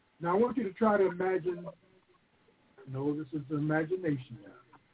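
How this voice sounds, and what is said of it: Hoarse, throaty voice. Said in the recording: “I've got a little bit of a frog in my throat, and I'm having a tough time clearing it”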